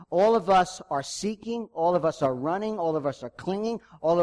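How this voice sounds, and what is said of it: Usual voice. Nothing is said of it.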